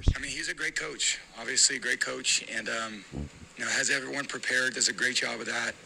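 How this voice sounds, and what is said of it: Hoarse voice. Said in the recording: “his voice is hoarse ... But his voice is hoarse.”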